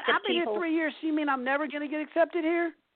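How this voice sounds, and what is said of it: Southern American accent. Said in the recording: “Your southern accent gives you away.”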